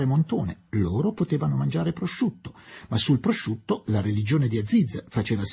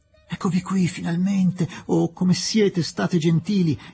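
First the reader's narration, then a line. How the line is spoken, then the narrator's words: Exclamation. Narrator (Italian): esclamò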